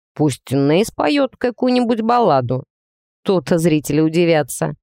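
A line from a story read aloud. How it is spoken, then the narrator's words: Wry snort. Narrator (Russian): хмыкнул Алекс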